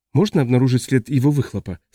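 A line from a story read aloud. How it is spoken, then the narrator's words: Plain. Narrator (Russian): спросил Ажье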